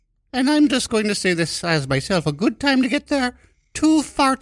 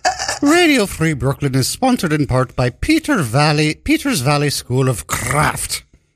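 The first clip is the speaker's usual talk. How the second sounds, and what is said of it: Deliberately bad Irish accent. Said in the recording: “I'm going to read this again in a terrible Irish accent.”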